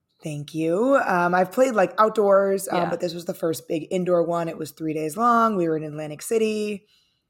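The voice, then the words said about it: Strained, worn-out voice. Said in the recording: “my voice is also not. So here we are ... I sound like a kindergartner on my work calls ... this is much better than what I was working with on Monday”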